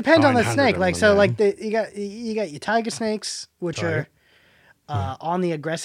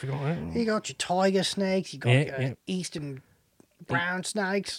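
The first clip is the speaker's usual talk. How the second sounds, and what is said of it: Attempted Australian accent. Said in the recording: “For the next 3 minutes, can we do just Australian accents? ... I'm so bad.”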